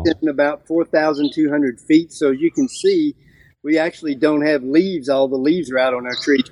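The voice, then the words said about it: North Carolina Appalachian accent. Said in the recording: “You North Carolinians have the coolest accent ... It's such a different inflection and sound than it is in any other state.”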